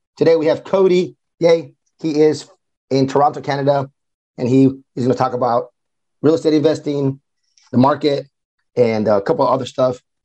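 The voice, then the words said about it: Hoarse, worn-out voice. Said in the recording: “My throat doesn't hurt, but it's just my voice is gone from 4 days in Austin, Texas at the Billion Dollar Boardroom Mastermind. My voice is coming back”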